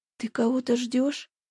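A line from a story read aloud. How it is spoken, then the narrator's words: Quiet. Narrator (Russian): тихо произнесла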